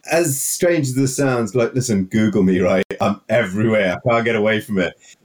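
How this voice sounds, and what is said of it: Heavy Welsh accent. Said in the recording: “you've got a nice, heavy Welsh accent”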